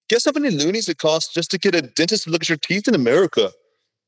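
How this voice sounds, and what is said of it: Put-on Canadian accent. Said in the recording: “Should I do another Canadian accent for it?”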